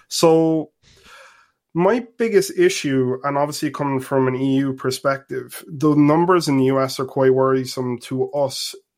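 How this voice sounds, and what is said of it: Irish accent. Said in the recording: “If you can't tell by my accent, I'm actually in Ireland.”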